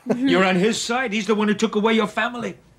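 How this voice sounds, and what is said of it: Unconvincing fake New York accent, Irish showing. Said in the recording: “having real trouble making his accent stick ... that sort of fake New York one ... he's like Irish or something, right? Like that's coming out pretty heavily in him trying to do this fake New York accent. It's rough.”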